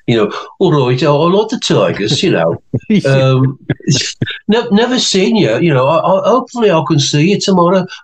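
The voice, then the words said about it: Imitated Brummy (Birmingham) accent. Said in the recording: “his lovely Brummy accent”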